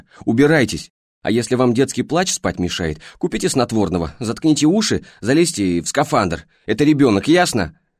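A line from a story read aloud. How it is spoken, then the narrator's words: Uncontrollable yelling. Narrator (Russian): Орала она, не в силах остановиться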